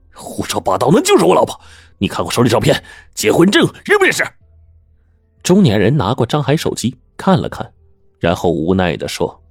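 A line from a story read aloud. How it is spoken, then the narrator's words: Loud bellow. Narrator (Chinese): 张海大吼了一声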